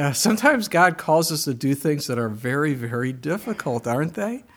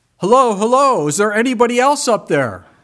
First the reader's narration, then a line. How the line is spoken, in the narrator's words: he yelled out